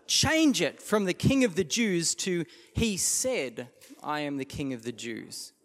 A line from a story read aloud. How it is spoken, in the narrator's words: Pilate replied